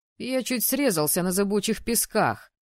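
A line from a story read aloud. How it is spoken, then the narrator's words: Snorting chuckle. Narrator (Russian): хмыкнул Мэтт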